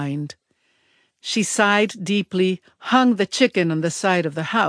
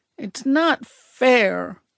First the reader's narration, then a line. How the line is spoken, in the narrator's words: I mumbled